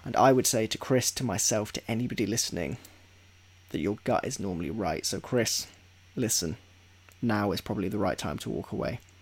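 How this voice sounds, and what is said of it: Deep, strained, fading voice. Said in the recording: “my voice is quite deep right now. My voice is just fucking going. ... before my voice goes entirely”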